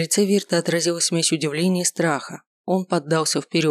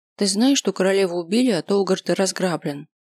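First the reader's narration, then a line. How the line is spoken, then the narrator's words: Plain. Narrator (Russian): спросила она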